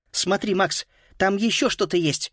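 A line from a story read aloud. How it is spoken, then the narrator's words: Sudden exclamation. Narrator (Russian): воскликнула вдруг Фрида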